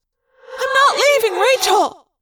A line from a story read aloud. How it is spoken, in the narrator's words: Cassie cried